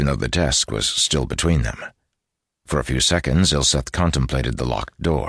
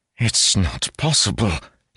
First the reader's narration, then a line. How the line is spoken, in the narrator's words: he gasped